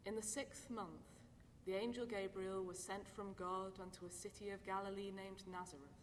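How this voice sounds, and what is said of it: British accent. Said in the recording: “we're going to hear it in a British accent, just the way you would hear it if you were over in London”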